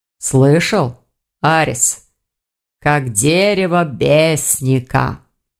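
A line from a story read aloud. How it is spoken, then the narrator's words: Drawled, rector. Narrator (Russian): протянул ректор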